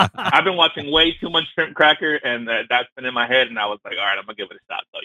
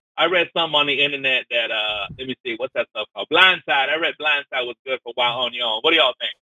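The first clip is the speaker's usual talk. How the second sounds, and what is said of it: Put-on Cajun accent. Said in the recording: “The Cajun accent, by the way.”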